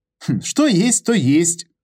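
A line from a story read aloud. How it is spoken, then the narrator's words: Chuckling again. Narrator (Russian): снова хохотнул Петр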